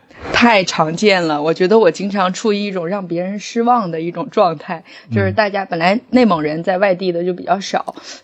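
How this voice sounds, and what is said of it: Mandarin with Northeastern Chinese accent. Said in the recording (Chinese): “你的这个口音 ... 为什么你的口音是东北口音？ ... 说着带有东北口音的普通话”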